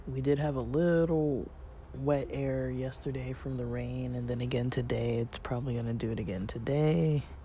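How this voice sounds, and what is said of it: Slightly congested, unclear voice. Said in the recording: “You kind of hear me like with a little, you know, my voice isn't fully clear. Partially it's, you know, my sinuses, the cold symptoms are still a little mildly there.”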